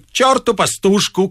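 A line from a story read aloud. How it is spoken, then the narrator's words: Shouted. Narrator (Russian): крикнул Остап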